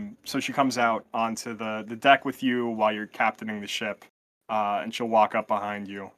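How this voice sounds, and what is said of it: Usual voice. Nothing is said of it.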